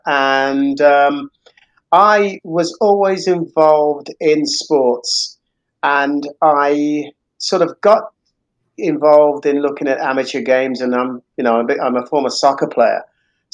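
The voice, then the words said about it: British accent. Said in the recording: “as you can probably tell by the accent, I'm not originally from the US. I grew up in the UK”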